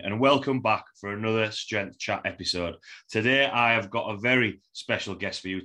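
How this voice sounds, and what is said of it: Broad Yorkshire accent. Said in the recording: “having a broad Yorkshire accent”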